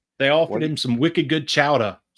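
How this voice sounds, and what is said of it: Boston accent drifting toward Schwarzenegger. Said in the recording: “accent ... It went a little Arnold ... a little Arnold Schwarzenegger lives in Boston”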